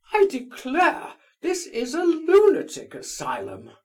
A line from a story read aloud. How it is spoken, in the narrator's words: cried Lizaveta Prokofievna